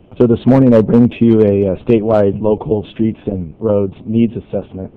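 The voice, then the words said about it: Worn voice after a cold. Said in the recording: “apologize for my voice. I'm just coming off of a cold ... but the voice may not last”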